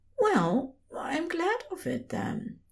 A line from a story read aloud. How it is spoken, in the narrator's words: he said softly